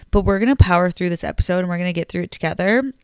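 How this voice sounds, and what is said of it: Sick, under-the-weather voice. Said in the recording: “I'm sorry if I sound a little under the weather today ... I'm sick as a dog ... I sound sick”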